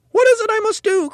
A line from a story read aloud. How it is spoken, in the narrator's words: cried Mrs